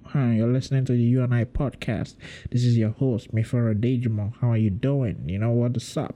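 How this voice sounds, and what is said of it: Put-on nasal American accent. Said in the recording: “Just add a little nasal something to it and boom, I'm an American ... Boom, American accent”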